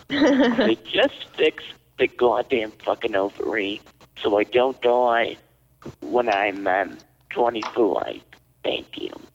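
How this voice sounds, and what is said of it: Put-on New Jersey accent. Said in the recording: “Why do you have a Jersey accent all of a sudden? ... New Jersey housewife, yes.”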